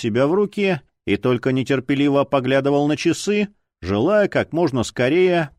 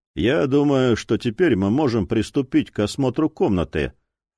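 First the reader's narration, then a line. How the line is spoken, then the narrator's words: Low voice. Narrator (Russian): вполголоса произнес полковник Гойер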